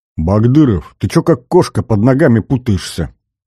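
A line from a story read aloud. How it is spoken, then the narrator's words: Displeased grumble. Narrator (Russian): Недовольно проворчал светловолосый бурмин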